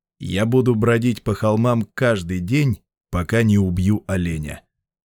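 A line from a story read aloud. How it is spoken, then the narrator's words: Said to himself. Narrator (Russian): сказал себе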